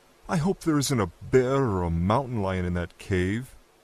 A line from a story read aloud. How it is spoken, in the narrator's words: Sunday Price moaned